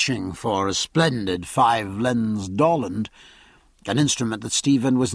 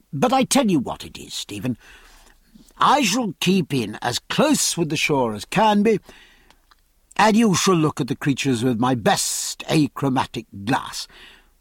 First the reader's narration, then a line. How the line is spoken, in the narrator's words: Then, much more kindly and with a smile